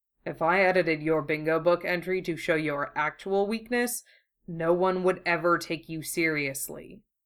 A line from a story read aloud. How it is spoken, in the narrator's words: he says dryly